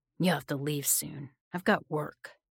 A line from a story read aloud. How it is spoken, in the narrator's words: grunted